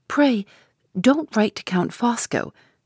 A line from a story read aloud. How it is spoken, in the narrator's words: persisted Lady Glyde, more earnestly than ever